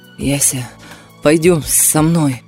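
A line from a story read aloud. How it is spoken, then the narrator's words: Hoarse, breaking voice. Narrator (Russian): Голос хрипел и срывался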